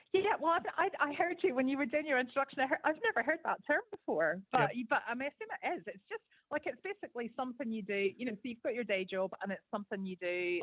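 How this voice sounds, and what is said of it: Mixed Northern Irish Scottish accent. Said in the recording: “I'm originally from Belfast, so I've got a bit of a. An eclectic Celtic accent”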